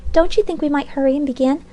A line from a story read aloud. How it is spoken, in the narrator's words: exclaimed softly